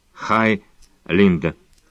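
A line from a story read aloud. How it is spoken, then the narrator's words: Cold, through gritted teeth. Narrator (Russian): Девушки без особого тепла одновременно процедили сквозь зубы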